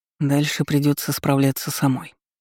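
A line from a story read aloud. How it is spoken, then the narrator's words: Muttered. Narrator (Russian): пробормотал он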